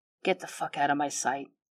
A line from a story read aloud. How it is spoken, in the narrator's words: he whispers